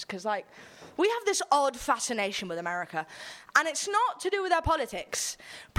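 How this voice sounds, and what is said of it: English accent shifting toward American. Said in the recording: “my accent's gonna accidentally switch ... I'm English. I grew up in America”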